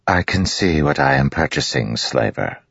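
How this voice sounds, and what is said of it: Smooth aristocratic accent. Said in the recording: “she said in a smooth, aristocratic accent.”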